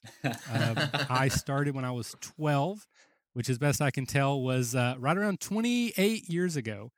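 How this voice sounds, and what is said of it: Rural Kentucky accent. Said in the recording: “I'm from rural Kentucky, if the accent hasn't already given that away”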